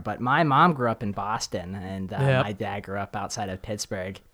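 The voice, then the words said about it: Mixed Midwestern and East Coast accent. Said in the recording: “with the Michigan accent. ... I have a very interesting accent ... I can hear the East Coast, but it's not, you can tell it's not just East Coast”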